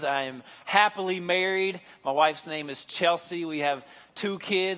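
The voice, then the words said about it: Slow-spoken Kentucky accent. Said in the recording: “I'm actually born and raised in Kentucky. You can probably tell from the way I talk, the accent and how slow I speak.”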